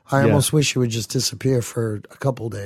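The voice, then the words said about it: Rough, worn-out voice. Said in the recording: “I'm tired. As you can hear, my voice is pretty shitty still.”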